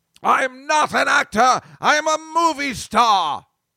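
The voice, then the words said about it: Peter O'Toole impression, British accent. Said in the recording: “I always do Peter O'Toole in that movie all the time when I'm doing, like, you know, the British accent.”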